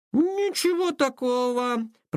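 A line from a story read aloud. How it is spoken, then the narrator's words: Drawled. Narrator (Russian): протянул Илья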